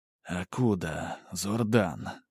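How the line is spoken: Inner whisper. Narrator (Russian): мысленно прошептал маг

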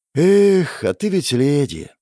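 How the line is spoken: Sighing man. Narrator (Russian): вздохнул мужчина

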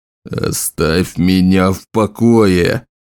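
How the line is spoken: Growled under breath. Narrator (Russian): рыкнул он себе под нос

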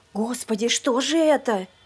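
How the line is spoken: Horrified whisper. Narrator (Russian): в ужасе прошептала Сюзанна

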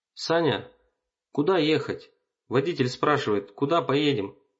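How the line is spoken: Shout. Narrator (Russian): крикнул он мне

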